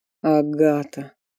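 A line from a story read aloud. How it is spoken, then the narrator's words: Hoarse repetition. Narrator (Russian): хрипло повторил Фарлей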